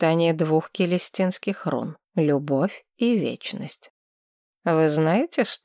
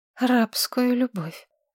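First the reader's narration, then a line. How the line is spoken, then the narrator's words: Hoarse voice. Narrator (Russian): охрипшим голосом произнесла Маргарет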